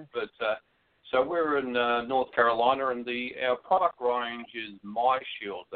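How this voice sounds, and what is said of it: Southern US accent. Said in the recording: “that's a southern accent, way down south.”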